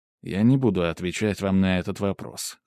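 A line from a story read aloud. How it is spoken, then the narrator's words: Cold, tense. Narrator (Russian): холодно сказал я, уже готовясь к самому худшему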